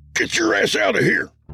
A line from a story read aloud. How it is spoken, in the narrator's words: yelled Walter